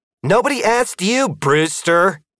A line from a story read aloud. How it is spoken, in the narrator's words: shouted